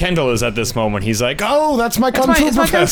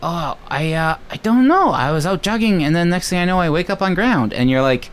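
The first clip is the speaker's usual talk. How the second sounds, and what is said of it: Stereotyped put-on Chinese accent. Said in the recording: “I'm impersonating his impersonation of a Chinese person.”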